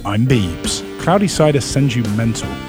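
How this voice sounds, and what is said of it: Fake British accent. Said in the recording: “the fakest British accent you'll ever hear”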